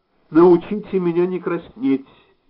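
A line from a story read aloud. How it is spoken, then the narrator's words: Angry. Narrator (Russian): сердито говорила Нора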